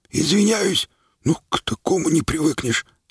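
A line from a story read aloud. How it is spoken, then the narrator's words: Whisper. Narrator (Russian): сказал он шепотом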